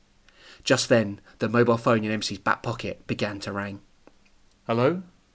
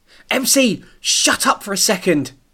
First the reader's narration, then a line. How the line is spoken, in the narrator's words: Chip yelled